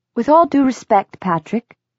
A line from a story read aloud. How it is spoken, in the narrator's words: said Nazreen in her clipped accent